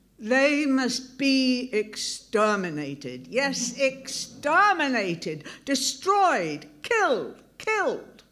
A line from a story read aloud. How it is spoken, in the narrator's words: Ack shouting